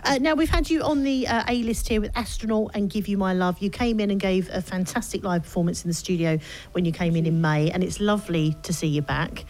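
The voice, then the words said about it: Cockney accent. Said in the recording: “It's my Cockney accent.”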